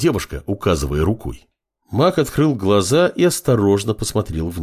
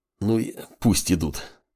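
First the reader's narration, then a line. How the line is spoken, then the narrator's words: Nauseous mutter. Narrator (Russian): пробормотал маг, стараясь справиться с рвотными позывами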